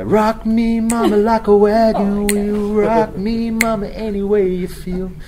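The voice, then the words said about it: Sung with a country twang. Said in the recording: “That's a twang.”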